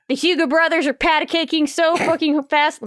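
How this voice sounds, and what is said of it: Strong put-on Southern accent. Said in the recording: “My southern accent came out hard.”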